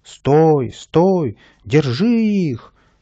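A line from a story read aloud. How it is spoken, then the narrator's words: Loud shouting. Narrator (Russian): громко кричал садовник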